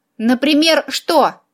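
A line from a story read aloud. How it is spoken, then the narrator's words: Snide question. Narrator (Russian): ехидно поинтересовался Филипп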